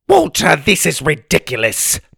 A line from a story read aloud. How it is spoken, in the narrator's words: Ma snapped